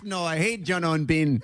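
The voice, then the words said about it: Poor imitation of host's accent. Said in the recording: “that is a terrible impression of my accent... Terrible impression of my accent... Horrendous.”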